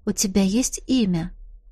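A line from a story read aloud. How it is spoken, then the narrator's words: Quiet question. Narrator (Russian): тихо спросила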